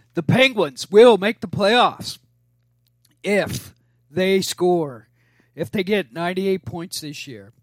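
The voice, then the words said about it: Hoarse, failing voice. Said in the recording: “the Hockey Jesus has lost his voice ... I'm losing my voice first time out of the gates ... I can't believe I lost my voice”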